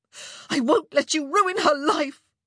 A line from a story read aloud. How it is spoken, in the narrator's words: she said, the words choking in her throat